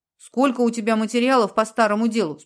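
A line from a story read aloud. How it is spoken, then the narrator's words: Plain question. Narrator (Russian): спросила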